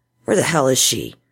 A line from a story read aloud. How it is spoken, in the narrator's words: He mumbled through clenched teeth